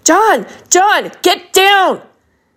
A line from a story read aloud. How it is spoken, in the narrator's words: Sherlock, who'd sprung into action shouting